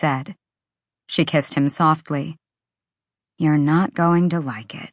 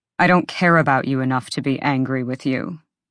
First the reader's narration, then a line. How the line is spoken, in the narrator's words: he said coldly